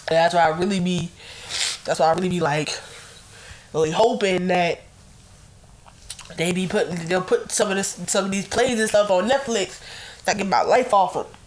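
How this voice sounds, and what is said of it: Sick, congested voice. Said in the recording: “I know I sound sick. I am sick”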